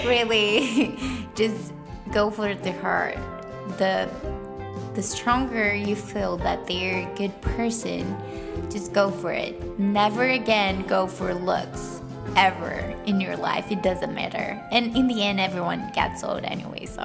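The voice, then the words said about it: Cute old lady voice. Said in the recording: “that was the cutest old lady voice, because you have the accent”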